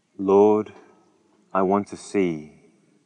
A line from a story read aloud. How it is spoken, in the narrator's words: replied